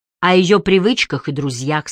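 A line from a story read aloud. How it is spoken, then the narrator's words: Plain. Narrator (Russian): сказала Энджи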